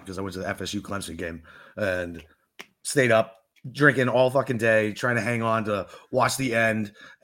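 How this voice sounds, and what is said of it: Hoarse, worn-out voice. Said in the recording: “my voice is fucking shot”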